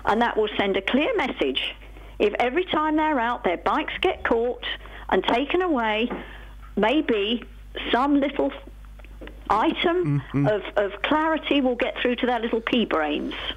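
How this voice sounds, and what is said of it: Noticeable regional accent. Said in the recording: “I love the accent.”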